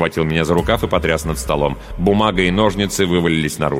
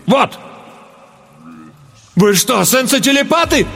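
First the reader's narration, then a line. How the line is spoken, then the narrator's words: Horrified exclamation. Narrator (Russian): С ужасом воскликнул я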